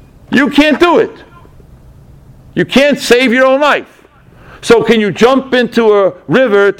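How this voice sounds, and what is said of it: Usual voice. Nothing is said of it.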